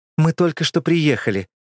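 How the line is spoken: Agitated. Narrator (Russian): взволнованно сказала Алина

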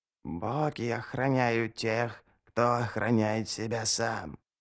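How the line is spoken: Whisper. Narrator (Russian): прошептала она

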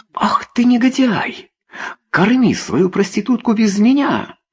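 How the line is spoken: Shouted. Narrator (Russian): Закричала она

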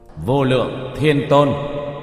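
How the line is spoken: Raised solemn voice. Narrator (Vietnamese): Tiểu Thất cất cao giọng

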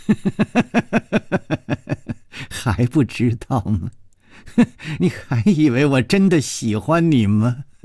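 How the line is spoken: Laughing mockingly. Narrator (Chinese): 他不停地笑

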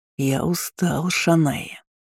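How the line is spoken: Hollow, muffled voice. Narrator (Russian): говорил Роберт глухим голосом

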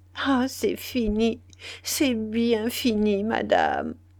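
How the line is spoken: Stammering. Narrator (French): bégaya-t-elle

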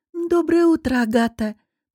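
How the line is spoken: Purring. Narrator (Russian): мурлыкнула Надя

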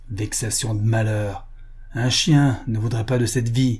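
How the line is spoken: Disgusted grumble. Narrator (French): grommela-t-il avec une grimace de dégoût

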